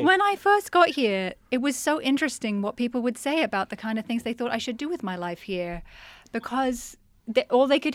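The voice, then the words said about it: Mixed, partly British-sounding accent. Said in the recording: “a British accent ... sort of this combo accent”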